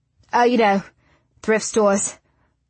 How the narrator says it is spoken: says with a chuckle

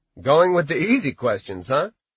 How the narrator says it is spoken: Dave chuckled

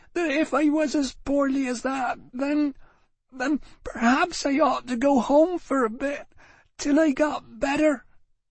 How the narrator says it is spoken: she repeated unsteadily

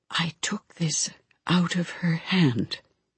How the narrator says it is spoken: Mom whispered

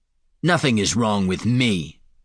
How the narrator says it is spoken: Falinar snapped

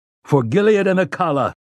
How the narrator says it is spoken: he roared

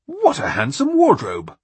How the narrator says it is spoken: Artus exclaimed

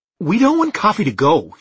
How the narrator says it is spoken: she snapped

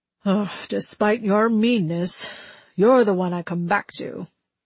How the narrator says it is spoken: he mumbled, eyes closed

